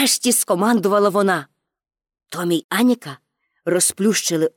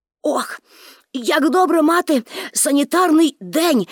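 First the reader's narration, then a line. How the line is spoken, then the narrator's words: Exclaiming with full mouth. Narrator (Ukrainian): вигукнув Томі, напихаючи рота оладками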